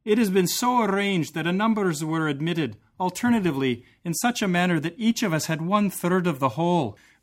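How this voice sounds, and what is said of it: Put-on Scottish accent. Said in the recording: “this will be my Scottish accent”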